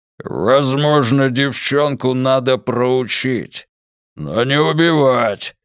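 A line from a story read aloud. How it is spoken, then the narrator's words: Growled. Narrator (Russian): рыкнул Тул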